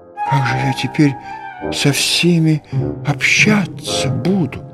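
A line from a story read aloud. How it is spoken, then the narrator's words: Whisper. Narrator (Russian): прошептал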